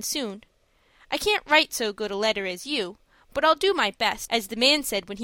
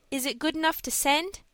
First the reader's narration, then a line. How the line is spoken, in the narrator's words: asked Dick anxiously